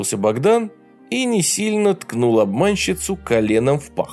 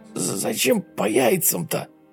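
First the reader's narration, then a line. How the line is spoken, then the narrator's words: Strangled wheeze. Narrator (Russian): сдавленным голосом просипел тот, кто выдавал себя за девушку Еву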